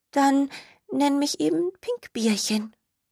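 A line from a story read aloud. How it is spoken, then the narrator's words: Little skunk whispering. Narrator (German): flüsterte das kleine Stinktier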